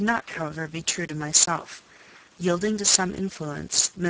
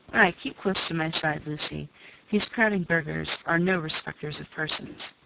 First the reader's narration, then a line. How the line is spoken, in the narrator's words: John saying in his kind voice